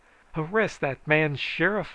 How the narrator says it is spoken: I hollered

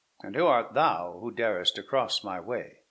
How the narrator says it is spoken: said the knight, haughtily

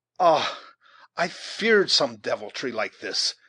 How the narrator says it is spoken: exclaimed the scout in English

